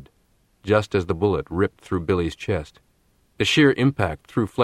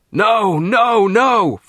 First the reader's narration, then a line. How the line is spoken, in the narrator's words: Fletcher screamed